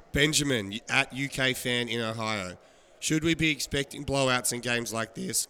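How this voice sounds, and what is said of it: Voice sounds rough and strained. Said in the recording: “my voice is so bad”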